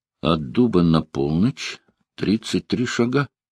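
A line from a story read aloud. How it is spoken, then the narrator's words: Whispering. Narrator (Russian): Он прошептал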